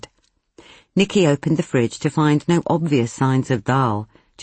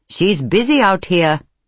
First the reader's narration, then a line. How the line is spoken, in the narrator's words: reply loudly